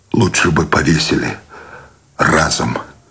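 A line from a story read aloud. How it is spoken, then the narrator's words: Despairing, dejected exhale. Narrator (Russian): С отчаянием выдохнул Сущеня и подавленно добавил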